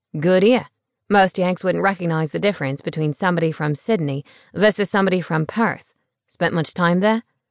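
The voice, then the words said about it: Australian accent. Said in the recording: “An accent. I was such a sucker for an accent... You're Australian. Sydney?”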